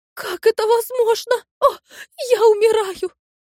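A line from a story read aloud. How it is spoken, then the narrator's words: Singer crying out. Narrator (Russian): вскрикнула певица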